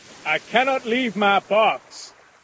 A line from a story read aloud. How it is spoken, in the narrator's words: Cornelius shouted again